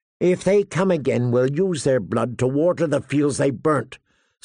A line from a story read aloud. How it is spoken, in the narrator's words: Sir Mark Piper declared hotly